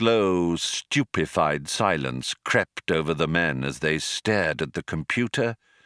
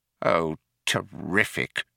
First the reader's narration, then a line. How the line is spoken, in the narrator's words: muttered Fauke